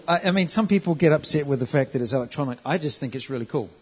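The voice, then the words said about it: Non-American English accent. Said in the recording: “you can tell by the accent. It's a more pure form of English than the Americans”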